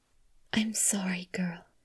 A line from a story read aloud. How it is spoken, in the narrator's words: murmured